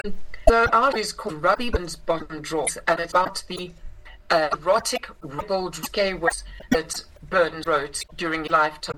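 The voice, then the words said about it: South African accent. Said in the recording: “I grew up in South Africa, is where I inherited this accent.”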